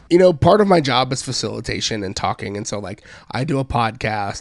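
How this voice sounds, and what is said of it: Weird-sounding, affected voice. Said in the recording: “You've had Central Texas allergies ... my weird voice”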